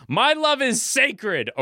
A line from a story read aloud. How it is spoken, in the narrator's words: nervously, then looks you right in the eye as he screams